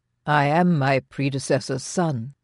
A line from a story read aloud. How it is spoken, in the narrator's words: he said calmly